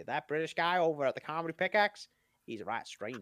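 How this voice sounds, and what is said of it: Weak put-on country accent. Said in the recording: “I don't know what accent I'm doing now ... you can't do a country accent very well”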